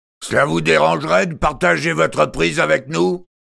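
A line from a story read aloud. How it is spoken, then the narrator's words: Tall bearded man shouting. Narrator (French): cria un barbu élancé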